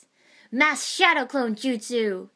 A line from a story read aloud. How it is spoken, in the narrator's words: He roared